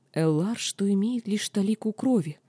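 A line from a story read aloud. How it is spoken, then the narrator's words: Entranced whisper. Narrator (Russian): как зачарованная прошептала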